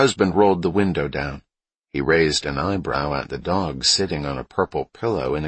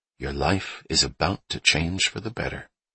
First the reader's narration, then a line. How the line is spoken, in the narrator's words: Emily whispered into Hubba's ear